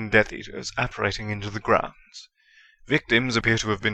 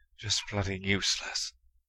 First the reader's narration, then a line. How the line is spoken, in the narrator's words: he muttered